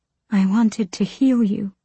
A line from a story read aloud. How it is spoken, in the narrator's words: she breathed